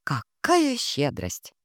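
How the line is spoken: Snorting. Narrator (Russian): хмыкнула я

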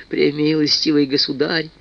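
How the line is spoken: Meek babbling. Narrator (Russian): лепетал, выпустивший из себя всю важность аптекарь

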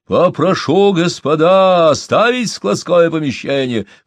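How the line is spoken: Hoarse shout. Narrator (Russian): хрипло закричал Машин

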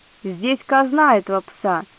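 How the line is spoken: Angry. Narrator (Russian): сердито сказал Вальброса

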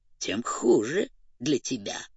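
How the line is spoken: Grumbling cat. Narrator (Russian): проворчал кот

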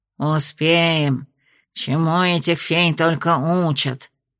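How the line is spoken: Flushed grumbling. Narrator (Russian): проворчал раскрасневшийся бургомистр Пикс

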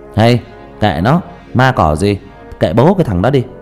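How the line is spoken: Loud laughing. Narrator (Vietnamese): Thằng Nam cười lớn

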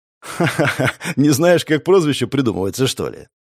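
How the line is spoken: Laughing. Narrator (Russian): рассмеялся Напалм

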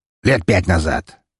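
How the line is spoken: Quick growling answer. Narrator (Russian): мгновенно ответил он, вновь зарычав

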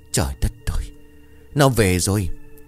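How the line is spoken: Terrified choked voice. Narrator (Vietnamese): ông xanh mặt, đôi môi run rẩy, giọng cũng như nghẹn lại

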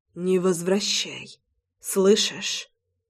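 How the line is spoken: Whispered. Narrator (Russian): прошептал он

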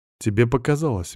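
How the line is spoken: Soft. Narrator (Russian): мягко сказал я

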